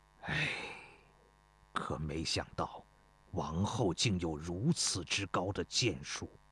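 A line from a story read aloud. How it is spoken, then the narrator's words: Sighing. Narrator (Chinese): 曹阳叹了口气说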